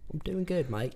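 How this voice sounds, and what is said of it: Put-on Australian accent. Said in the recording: “Is that a little Australian accent? ... Yeah, I've been working on my accents lately.”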